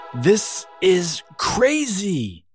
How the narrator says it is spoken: yelled Abigail

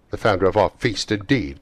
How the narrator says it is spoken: cried Mrs

